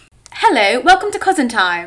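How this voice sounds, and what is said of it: Fairly good put-on British accent. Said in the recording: “British accents ... Not bad.”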